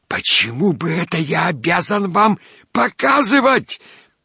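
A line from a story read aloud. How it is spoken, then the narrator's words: Hiss. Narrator (Russian): зашипел Иван Никодимыч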